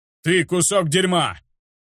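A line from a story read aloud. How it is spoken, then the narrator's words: Angry shout. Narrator (Russian): Закричал на охранника мужчина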